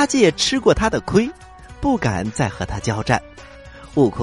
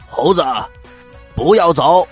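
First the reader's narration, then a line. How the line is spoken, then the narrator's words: Loud shout. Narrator (Chinese): 二大王 他大声的喊了一声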